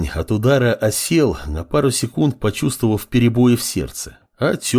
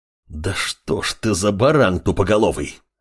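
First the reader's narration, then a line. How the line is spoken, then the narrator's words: Growling. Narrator (Russian): Рыкнул Амор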